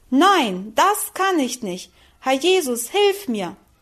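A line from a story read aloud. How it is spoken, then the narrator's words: Loud desperate cry. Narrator (German): rief sie laut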